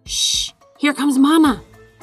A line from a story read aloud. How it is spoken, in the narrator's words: hissed Pip